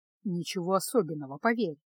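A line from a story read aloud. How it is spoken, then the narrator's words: Gloomy, weary. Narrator (Russian): мрачно произнес Кайл, бросив на Феску усталый взгляд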